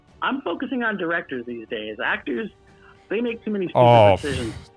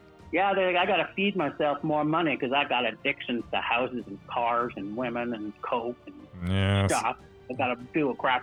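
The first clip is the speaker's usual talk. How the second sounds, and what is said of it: Put-on Southern Alabama accent. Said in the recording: “my voice went to like Southern Alabama for this one, but it wasn't intentional ... I was thinking of Tommy Lee Jones”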